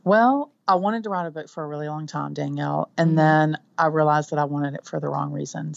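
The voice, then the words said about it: Southern US accent. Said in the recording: “your southern accent”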